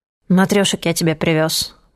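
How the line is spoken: Grumbling. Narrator (Russian): проворчал

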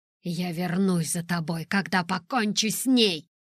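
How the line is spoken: Growl. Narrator (Russian): прорычал он

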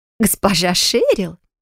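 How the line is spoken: Maid's exclamation. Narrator (Russian): воскликнула выглянувшая в холл служанка

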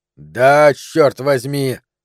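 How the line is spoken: Shout. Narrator (Russian): крикнул он

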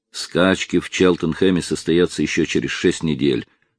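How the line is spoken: Calm. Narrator (Russian): спокойно отреагировал Тремьен

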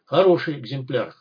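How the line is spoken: Hamster's smirking grunt. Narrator (Russian): хмыкнул хомяк

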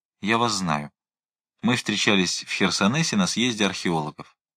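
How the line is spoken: Quiet. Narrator (Russian): тихо сказал

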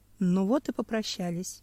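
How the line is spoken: Sighing. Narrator (Russian): вздохнул Семен

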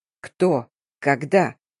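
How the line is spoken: Growl, struggling for composure. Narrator (Russian): Пытаясь взять себя в руки, прорычал я

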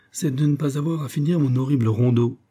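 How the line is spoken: Murmured. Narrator (French): murmura Hector Serbadak

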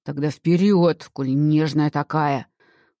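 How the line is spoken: Growl. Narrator (Russian): рыкнул на нее Карл

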